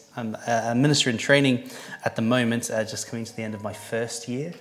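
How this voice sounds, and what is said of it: Welsh accent with New Zealand influence. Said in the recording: “I'm not a Yorkshireman, and you might be thinking, where's that accent from? I'm actually from South Wales ... for most of my 20s, I spent a long time in New Zealand”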